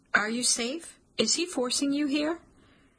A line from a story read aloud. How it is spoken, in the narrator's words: My voice is shaky, my throat tight